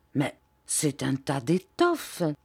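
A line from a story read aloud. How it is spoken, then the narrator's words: Murmured. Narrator (French): murmura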